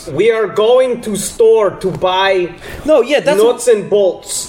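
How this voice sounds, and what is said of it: Put-on Russian accent. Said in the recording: “do a Russian guy ... that's a real Russian accent”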